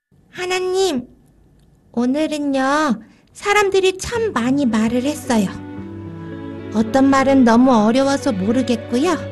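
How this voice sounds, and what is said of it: Child speaking in a loud voice. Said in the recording (Korean): “큰 목소리로 해야 한다.”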